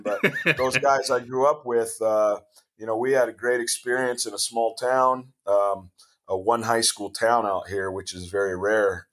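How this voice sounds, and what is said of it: Hoarse voice. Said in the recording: “That's why I'm sounding a little hoarse this morning”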